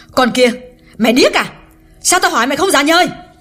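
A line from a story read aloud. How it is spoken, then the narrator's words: Loud scolding. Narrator (Vietnamese): Hương càng lớn tiếng nạt Liễu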